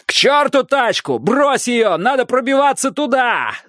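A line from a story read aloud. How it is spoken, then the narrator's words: Yelling over noise. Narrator (Russian): заорал Страйк, перекрывая вой магазинной сигнализации и крики разбегающихся прохожих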